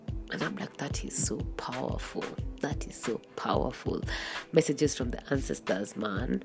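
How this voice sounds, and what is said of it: Drained, teary voice, stuffy nose. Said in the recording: “hear it in my voice, that I'm feeling quite just like emotionally drained. I've been crying a lot ... my nose is stuffy”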